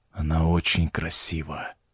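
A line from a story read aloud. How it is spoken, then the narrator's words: Muttered. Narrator (Russian): пробормотал он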